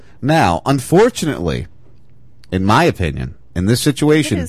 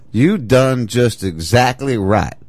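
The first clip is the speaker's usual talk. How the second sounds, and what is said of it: Put-on country accent. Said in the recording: “your little country accent thing”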